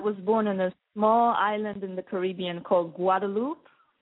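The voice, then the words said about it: French Caribbean accent. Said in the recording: “we detect an accent ... So it's actually a French island. So this is where the accent is from.”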